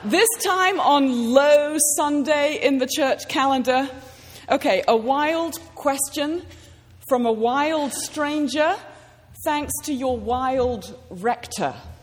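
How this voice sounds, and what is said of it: British accent. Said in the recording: “a lunatic stranger with a foreign accent ... yet another Brit”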